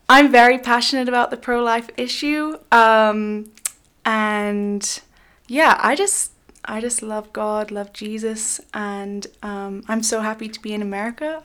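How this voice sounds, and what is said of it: British accent. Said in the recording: “I'm actually not American, as you may be able to tell from my accent. ... I'm from the UK, so I'm British”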